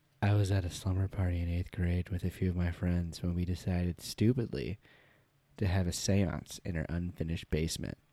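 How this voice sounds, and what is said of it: Spooky, scary storytelling voice. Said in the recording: “I'm going to read it in my spooky, scary voice.”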